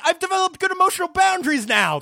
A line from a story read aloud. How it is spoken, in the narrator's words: yell like